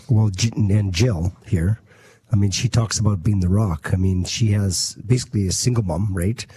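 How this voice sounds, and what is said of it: Hoarse, nearly lost voice. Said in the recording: “going sounds hard. Like you went going hard yesterday, huh? ... my voice is gone.”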